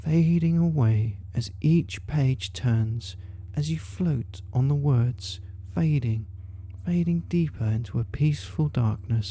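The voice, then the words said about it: Gentle whisper. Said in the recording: “As I whisper gently”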